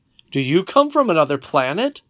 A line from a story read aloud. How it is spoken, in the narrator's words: I questioned him sharply